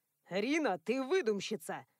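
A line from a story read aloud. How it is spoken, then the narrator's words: Scoffing snort. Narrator (Russian): фыркнул Адам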